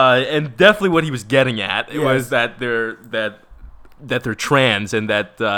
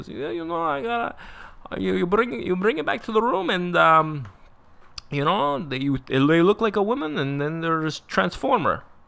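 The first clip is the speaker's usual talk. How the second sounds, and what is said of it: Vague generic foreign accent imitation. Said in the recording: “He had some generic accent ... I'm going to be this guy. I'm going to have some weird accent.”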